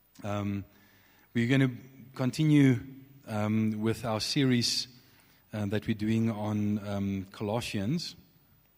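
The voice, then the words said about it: Scratchy voice. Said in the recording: “My voice is a bit scratchy, so if I sound strange, it's just I've got a little bit of a cough”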